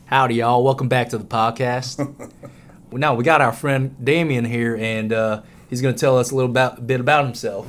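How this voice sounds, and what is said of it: Put-on Texan accent. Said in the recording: “I really like that voice change... I just got back from Texas, guys, so I picked up a little bit of an accent while I was down there.”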